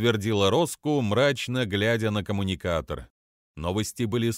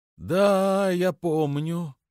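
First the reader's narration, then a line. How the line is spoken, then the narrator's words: Drawn out. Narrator (Russian): протянул Ревлекс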